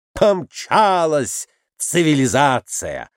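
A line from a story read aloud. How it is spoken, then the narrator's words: Exclaiming. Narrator (Russian): воскликнул Николай Иванович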